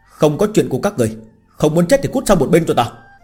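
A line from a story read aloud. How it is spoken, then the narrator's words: Furious shout. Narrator (Vietnamese): phẫn nộ quát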